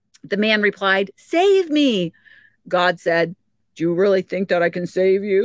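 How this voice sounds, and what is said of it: Usual voice. Nothing is said of it.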